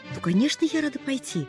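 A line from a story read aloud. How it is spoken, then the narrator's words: Happy sigh. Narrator (Russian): радостно вздыхала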